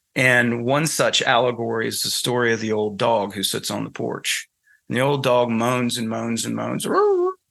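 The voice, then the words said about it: Southern US accent. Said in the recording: “excuse my Southern accent, I'm from North Carolina originally, so you can probably hear it in my voice.”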